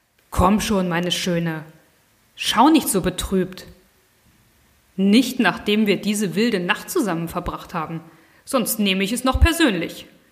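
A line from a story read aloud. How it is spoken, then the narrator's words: Soft, purring voice. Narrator (German): sagte mit einer säuselnden Stimme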